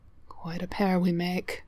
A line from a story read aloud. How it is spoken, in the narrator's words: he murmurs